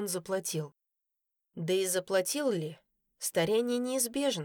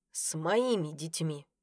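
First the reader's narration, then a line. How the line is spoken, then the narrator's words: Through clenched teeth. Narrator (Russian): процедил он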